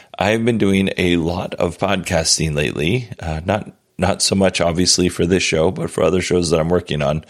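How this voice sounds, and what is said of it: Hoarse, strained voice. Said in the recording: “losing my voice ... I have lost my voice, or I'm losing it. I seem to have it a little bit more than I did earlier today.”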